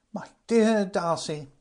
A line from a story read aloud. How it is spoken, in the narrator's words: cried Frank